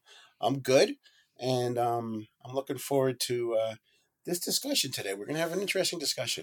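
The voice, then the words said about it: Voice slightly worn from illness. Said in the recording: “just getting over getting over a little illness, but my, so my voice is showing it a little bit”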